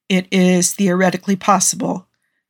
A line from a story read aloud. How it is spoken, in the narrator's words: he murmured thoughtfully